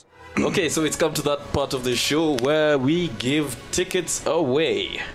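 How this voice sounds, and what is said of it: Polished radio announcer voice. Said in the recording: “I like your radio voice. ... It's so cool.”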